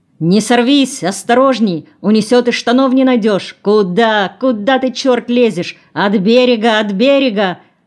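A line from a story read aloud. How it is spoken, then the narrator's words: Shouting. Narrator (Russian): кричал Краснов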